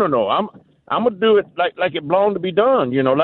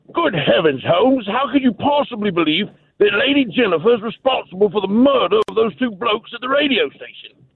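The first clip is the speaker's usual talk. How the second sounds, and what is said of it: Put-on British accent. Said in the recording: “British accent ... like they talk over there on the other side of in England there”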